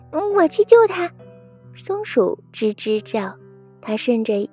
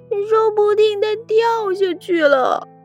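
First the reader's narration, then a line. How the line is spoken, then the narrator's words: Crying shout. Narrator (Chinese): 猫哭着大喊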